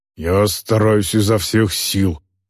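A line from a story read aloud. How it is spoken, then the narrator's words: Grumbled reply. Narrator (Russian): пробурчал в ответ Эйнар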